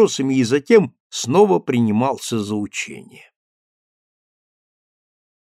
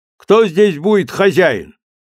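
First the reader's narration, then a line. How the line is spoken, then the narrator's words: Loud question. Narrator (Russian): вошедший громко спросил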